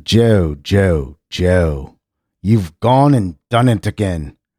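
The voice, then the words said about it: Put-on English accent. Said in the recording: “now this is my best English accent”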